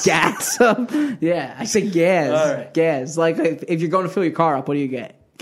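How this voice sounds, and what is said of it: Philadelphia accent. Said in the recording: “such a Philadelphia accent ... I liked how you said gaz up ... You went with the Z”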